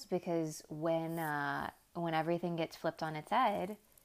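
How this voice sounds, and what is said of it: Sudden unexplained accent. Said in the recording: “I don't know where that accent came from.”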